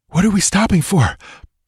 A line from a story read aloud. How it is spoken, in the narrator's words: panted Balthus